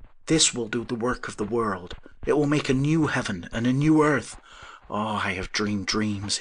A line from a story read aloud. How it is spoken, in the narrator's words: he exclaimed